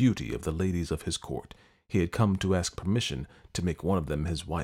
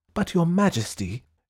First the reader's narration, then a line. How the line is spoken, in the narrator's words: exclaimed